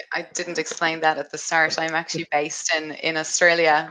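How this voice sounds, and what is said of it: Irish accent. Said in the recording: “Irish accent”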